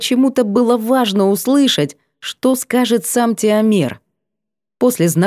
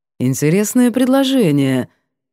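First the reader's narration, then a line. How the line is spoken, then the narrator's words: Purring. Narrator (Russian): мурлыкнул сиятельный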